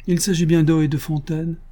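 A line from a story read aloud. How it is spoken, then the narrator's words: Cheerful interruption. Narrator (French): interrompit gaiement Antoinette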